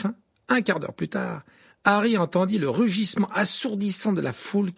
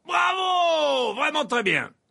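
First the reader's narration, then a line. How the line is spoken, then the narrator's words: Shouting. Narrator (French): hurlait Verpé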